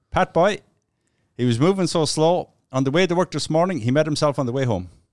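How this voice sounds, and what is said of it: Put-on Newfoundland accent. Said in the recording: “I'm going to try to do a Newfie accent without insulting anybody.”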